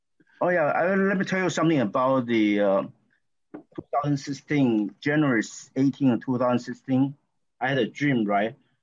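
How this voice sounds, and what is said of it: Taiwanese-accented English. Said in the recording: “my accent because I came from Taiwan originally”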